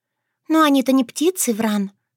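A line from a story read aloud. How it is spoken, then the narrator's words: Sighing. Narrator (Russian): вздохнула Шушана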